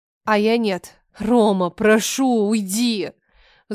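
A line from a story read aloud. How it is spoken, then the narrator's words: Wailing. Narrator (Russian): Взвыла я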